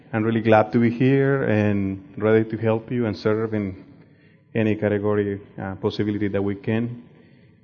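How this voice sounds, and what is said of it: Spanish accent speaking English. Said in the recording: “Spanish is my mother language, and that's why I had this kind of like funny accent when you hear me”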